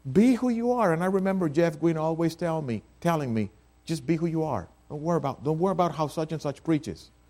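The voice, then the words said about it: Spanish accent. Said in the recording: “I cannot get rid of this Spanish accent. I wish I could, but I can't.”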